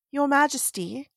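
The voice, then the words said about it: Attempted English accent, sounds cocky. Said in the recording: “I'll fake an English accent ... You just sound cocky, not cockney.”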